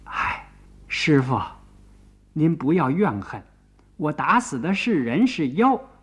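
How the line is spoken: Sighing. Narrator (Chinese): 孙悟空叹了一口气

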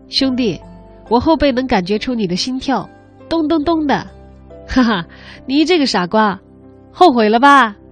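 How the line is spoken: Hearty laughter. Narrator (Chinese): 严明哈哈大笑着说

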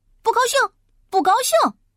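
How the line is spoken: Loud shouting. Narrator (Chinese): 不高兴 大叫大嚷

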